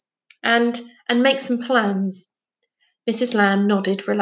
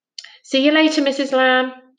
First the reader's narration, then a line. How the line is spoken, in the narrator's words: Jazz called out over her shoulder